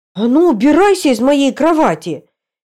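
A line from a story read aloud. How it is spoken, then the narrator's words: Shouting. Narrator (Russian): крикнула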